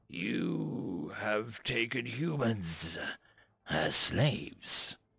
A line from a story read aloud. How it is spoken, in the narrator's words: Ambassador Hamilton almost growled the question